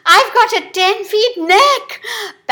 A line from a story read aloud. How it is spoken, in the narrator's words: panted the giraffe in utter exasperation